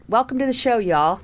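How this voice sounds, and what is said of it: Brief Southern American accent. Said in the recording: “I see my southern accent jumped in there for a second.”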